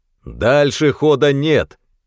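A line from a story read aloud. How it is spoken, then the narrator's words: Distant thunderous voice. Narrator (Russian): Прогремел оттуда громоподобный голос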